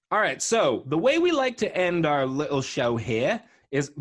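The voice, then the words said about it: Put-on British chimney-sweep accent. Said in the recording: “the weird accent? ... So much British. ... I sounded like the chimney sweep from Mary Poppins.”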